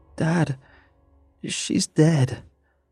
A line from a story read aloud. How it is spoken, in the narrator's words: I choked out